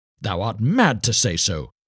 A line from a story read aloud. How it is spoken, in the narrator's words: cried the star child angrily